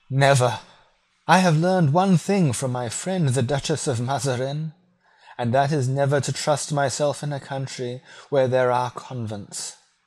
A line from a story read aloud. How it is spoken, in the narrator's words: she cried